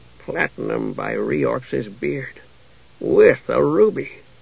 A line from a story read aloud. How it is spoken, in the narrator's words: mutter